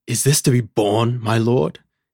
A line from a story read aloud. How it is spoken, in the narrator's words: he exclaimed fiercely